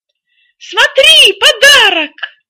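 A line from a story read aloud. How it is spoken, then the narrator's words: Excited exclamation. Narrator (Russian): воскликнула она, увидев под елкой коробку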